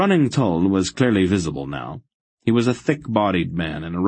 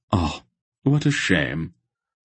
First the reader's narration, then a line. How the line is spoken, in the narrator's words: Silk sighed regretfully